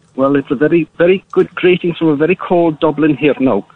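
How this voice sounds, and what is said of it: Unconvincing put-on Irish accent. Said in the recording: “do a decent Irish accent... maybe you could have worked on the accent a little bit better, or phoned in using one that you could actually do... You sounds like you're from Pakistan”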